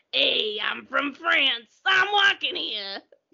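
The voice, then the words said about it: Put-on New York accent. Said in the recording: “you want to hear my French accent? ... That's New York”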